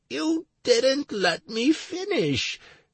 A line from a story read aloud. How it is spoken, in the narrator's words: the announcer whimpered